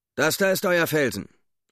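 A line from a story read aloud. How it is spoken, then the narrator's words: Pilot calling out. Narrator (German): rief der Pilot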